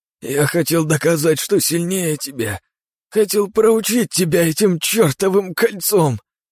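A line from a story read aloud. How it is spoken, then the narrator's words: Sobbing. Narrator (Russian): всхлипнул Павел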